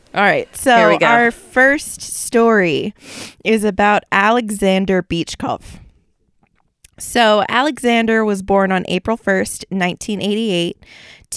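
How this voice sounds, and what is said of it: Speaks with a foreign accent. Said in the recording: “I really apologize for my accent ... We love the accents.”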